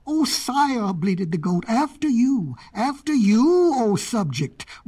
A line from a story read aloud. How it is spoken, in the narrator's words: roared the lion